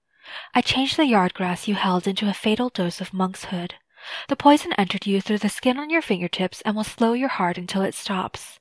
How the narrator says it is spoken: Cao whispered

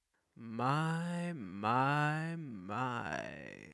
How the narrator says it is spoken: said in a purring baritone

